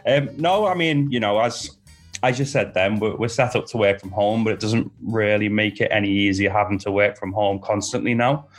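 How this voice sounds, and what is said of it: Slight Liverpool accent. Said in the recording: “I detect just a slight hint of a Liverpudlian accent there.”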